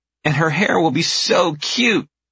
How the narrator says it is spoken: Ivy squeals

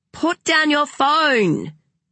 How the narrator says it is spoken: she yelled

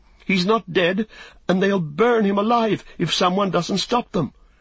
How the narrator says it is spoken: cried Pippin

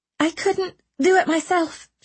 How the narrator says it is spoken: she gasped

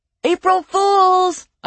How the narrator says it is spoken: I yelled

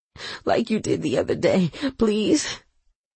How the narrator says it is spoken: she begged

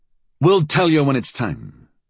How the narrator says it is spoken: he said curtly

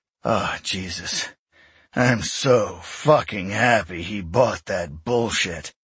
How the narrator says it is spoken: Eric groaned, taking deep breaths

